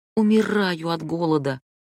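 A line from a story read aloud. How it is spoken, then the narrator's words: Almost moaning. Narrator (Russian): Хадия почти застонала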